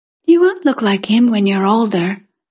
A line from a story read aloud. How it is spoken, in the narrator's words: my sister Etta said kindly